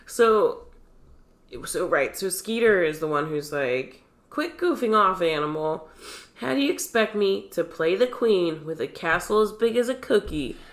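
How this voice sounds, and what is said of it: Congested voice from a cold. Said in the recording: “I can do a terrible voice with my cold.”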